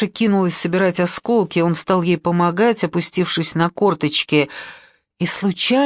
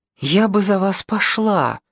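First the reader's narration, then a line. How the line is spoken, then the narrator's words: Bold girl breathing out. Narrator (Russian): выдохнула дерзкая девчонка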